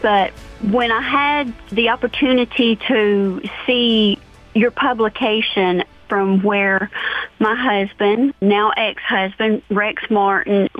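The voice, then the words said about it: Thick foreign accent. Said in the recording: “I do have the thick accent”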